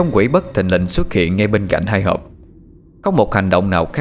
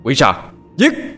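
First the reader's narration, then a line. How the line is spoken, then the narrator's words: Night-shaking scream. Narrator (Vietnamese): một tiếng hét như vang động cả màn đêm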